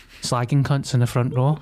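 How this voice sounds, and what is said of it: Poor Liverpudlian Paul Smith impression. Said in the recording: “That's supposed to be that small Paul Smith I was slagging her. It's a terrible Liverpudlian accent.”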